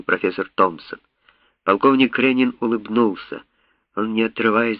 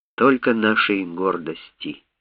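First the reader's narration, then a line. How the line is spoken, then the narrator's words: Quiet. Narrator (Russian): тихо сказал он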